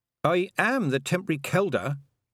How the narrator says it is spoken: said Tiffany stiffly

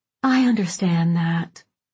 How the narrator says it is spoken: Babe said with a quiet sigh

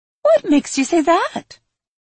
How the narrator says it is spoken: Trent asked, his voice still high-pitched and lilting

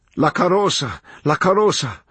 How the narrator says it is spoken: cried the beldam

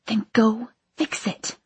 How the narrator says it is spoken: I hissed

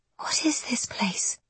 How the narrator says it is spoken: she whispers

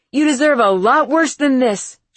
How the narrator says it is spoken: She shouted

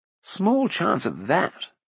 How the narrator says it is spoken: muttered Fluda

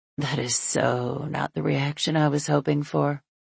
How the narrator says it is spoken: In a husky voice, Brody says

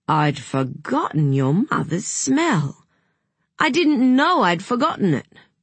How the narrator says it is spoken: He kept saying dreamily

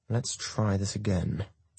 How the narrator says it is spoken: he mutters

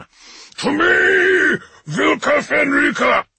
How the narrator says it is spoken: Russ thundered, his voice ringing with black fury

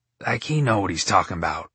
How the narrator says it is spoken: Peg mumbled to herself

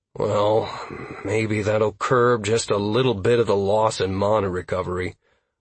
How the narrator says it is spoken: I grumbled to myself

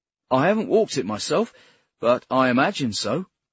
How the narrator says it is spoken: Adam said

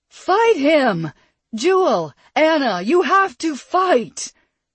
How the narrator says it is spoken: Perry yelled

